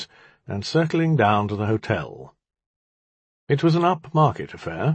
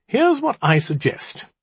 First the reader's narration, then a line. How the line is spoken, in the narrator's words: I said brightly